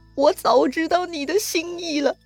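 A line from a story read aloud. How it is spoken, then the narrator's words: Anxious tearful speech. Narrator (Chinese): 吕布一看，急了……也跟着哭了，说呀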